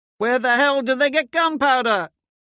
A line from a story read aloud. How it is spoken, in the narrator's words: Someone shouts